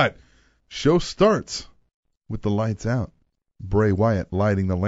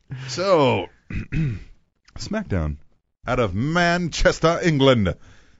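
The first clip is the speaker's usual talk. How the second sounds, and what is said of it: Poor put-on British accent. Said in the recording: “That's terrible. I can't do a fucking British accent to save my life.”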